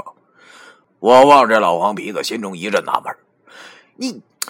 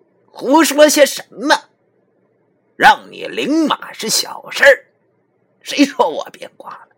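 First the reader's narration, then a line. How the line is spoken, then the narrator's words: Shrill. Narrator (Chinese): 尖声对我说道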